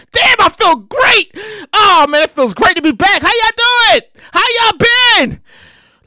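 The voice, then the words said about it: Excited, energetic voice. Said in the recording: “hear the excitement in my voice”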